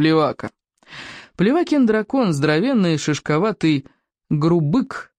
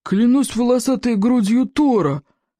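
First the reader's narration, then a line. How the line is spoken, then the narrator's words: Grumbled. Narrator (Russian): проворчал Голиаф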